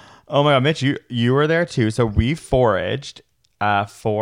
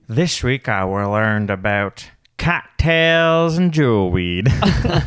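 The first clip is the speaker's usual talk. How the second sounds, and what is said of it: Put-on Southern Georgia accent. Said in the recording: “What accent is that? ... The south of Georgia, a Georgia peach?”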